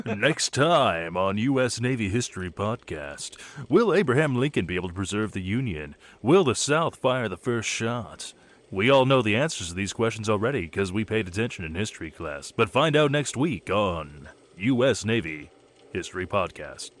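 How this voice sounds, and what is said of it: Dramatic anime announcer voice. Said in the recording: “my anime announcer voice”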